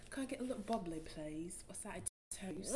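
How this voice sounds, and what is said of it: Put-on British accent. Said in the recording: “say a full sentence in the British accent”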